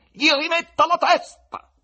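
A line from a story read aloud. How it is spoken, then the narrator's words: Loud command. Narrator (Italian): ordinò con voce forte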